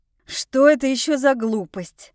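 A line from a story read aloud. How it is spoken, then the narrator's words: Irritated interruption. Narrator (Russian): раздраженно прерывает меня Энрина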